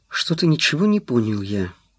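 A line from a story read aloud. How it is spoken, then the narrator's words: Gloomy. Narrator (Russian): мрачно сказал он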